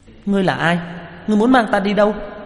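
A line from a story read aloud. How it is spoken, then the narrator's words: Crying out. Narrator (Vietnamese): hướng đối phương kêu lên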